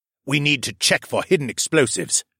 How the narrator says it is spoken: the man barked

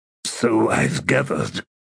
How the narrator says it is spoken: Through gritted teeth, feeling was returning to his limbs like sizzling fire, Sebar said

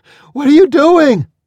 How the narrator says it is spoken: shouted

